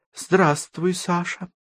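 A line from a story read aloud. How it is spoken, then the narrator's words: Muffled, hollow voice. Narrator (Russian): глухо произнесла Ева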